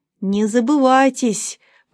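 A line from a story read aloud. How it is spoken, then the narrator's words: Old man through teeth. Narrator (Russian): процедил сквозь зубы дедуля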